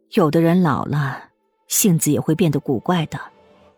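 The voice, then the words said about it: Quiet muttering voice. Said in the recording (Chinese): “小声嘟囔”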